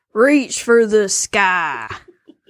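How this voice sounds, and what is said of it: Cowboy impression voice. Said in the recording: “do your best cowboy impression”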